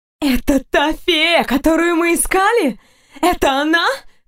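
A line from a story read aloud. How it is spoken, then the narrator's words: Exclaiming. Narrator (Russian): воскликнула Фурия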